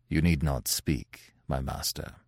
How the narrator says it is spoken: said Pierre, in a manly but sorrowful tone

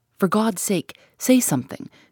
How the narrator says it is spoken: she exclaimed, passionately

